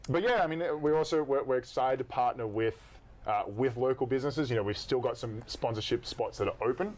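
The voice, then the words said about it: Australian accent. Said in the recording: “My Australian accent can get away with either.”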